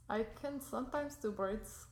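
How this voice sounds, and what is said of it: Put-on Russian then Mexican accent. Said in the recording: “you just went from Russian to Mexican real quick”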